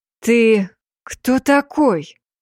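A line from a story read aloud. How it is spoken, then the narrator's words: Breathless exhale. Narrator (Russian): выдохнул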